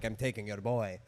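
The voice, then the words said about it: Put-on Italian accent. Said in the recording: “I'm just doing an Italian accent.”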